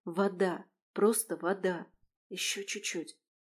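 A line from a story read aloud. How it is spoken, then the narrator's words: Nervous whisper. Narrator (Russian): прошептала я, чувствуя, как холодный пот течет по спине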